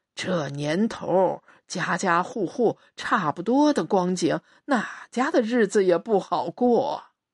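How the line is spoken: Old man sighing. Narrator (Chinese): 老伯叹了一口气，嘴上说

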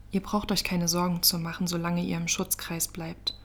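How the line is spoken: Calm. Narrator (German): sagte Violetta ruhig

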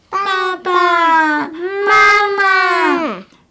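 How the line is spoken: Repeated crying calls. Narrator (Chinese): 他不停地喊呀喊呀

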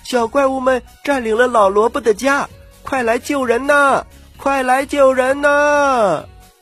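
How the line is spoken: Cries for help everywhere. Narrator (Chinese): 满山遍野喊起了呼救声

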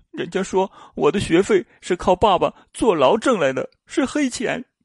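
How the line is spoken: Child crying. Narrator (Chinese): 女儿哭着说

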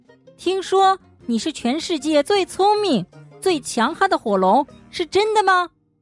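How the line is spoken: Loud shout. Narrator (Chinese): 伊丽莎白大叫

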